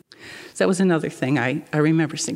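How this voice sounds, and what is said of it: Emotional, choked-up voice. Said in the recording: “Sorry, I'm getting emotional about it”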